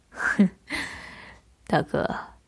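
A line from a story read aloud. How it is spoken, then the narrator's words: Distant teasing. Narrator (Chinese): 远处响起一声不合时宜的调笑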